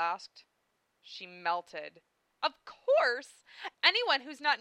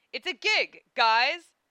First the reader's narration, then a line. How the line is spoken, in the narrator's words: Lena laughed